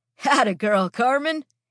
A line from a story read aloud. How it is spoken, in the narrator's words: says, laughing